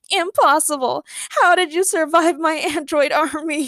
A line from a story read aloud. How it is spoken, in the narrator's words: he yelped as he started crying